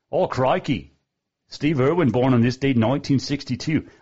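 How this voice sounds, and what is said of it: Put-on Australian accent. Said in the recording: “I tried out an Australian accent all week. My wife said it didn't sound. I think I'm perfect. ... I think the Australian accent was right on”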